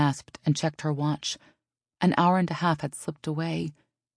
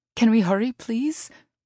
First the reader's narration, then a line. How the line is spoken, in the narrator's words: Elise asked anxiously